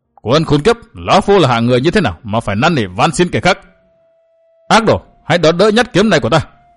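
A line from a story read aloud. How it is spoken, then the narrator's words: Furious loud bellow. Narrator (Vietnamese): Vũ Cốc Ma Đế bừng sôi lửa giận quát lớn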